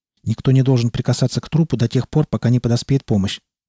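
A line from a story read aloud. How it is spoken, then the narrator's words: Hurried. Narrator (Russian): торопливо произнес Малдер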